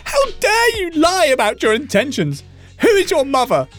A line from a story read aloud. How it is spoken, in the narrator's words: shrieks